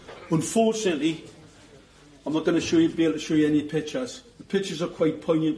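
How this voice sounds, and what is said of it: Geordie accent. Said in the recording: “a Geordie accent”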